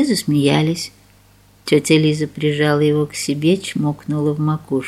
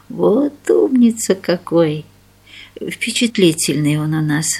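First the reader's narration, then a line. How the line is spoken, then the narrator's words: Sighing mother. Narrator (Russian): вздохнула мать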